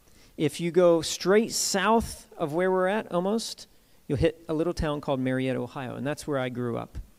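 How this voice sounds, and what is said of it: Southern American accent. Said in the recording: “You can tell by my accent I'm from the South.”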